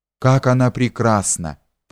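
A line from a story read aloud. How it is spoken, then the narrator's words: Whispered. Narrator (Russian): прошептал Лучинин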